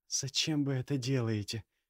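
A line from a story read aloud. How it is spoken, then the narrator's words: Quiet question. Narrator (Russian): тихо спросила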